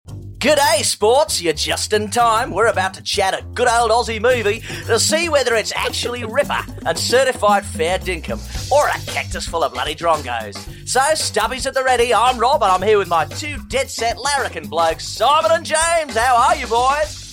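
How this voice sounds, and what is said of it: Exaggerated Australian accent impression. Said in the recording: “such a good impression ... That was really good.”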